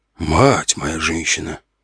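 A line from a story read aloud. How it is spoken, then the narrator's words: Muttering. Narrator (Russian): пробормотал я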